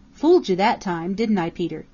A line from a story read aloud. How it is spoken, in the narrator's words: he chuckled